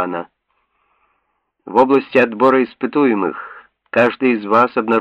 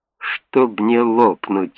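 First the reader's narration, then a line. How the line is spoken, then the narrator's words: Feeble mutter. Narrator (Russian): бессильно пробормотал Том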